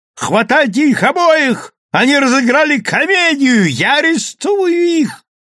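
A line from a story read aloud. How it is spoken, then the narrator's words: Yelling. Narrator (Russian): вопил полицейский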